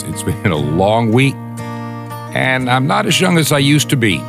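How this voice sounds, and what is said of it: Weak voice. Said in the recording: “my voice sounds a little bit weak today, it's because it is.”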